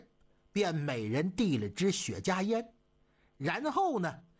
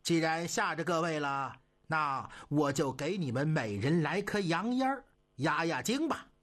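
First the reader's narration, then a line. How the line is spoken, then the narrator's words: Laughing. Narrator (Chinese): 董勋笑了，他说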